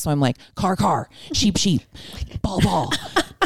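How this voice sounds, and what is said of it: Frantic, crazy-sounding repeated muttering. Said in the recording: “I sound like a crazy person”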